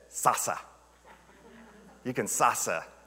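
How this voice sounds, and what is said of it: Imitated accent of a minister. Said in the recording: “she had this cool accent”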